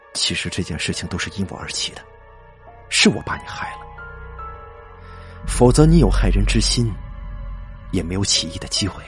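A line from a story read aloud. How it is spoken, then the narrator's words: Sighing. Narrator (Chinese): 周荣叹了口气说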